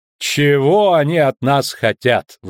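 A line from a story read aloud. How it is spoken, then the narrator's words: Sighing. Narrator (Russian): вздохнула Вера Левенхаупт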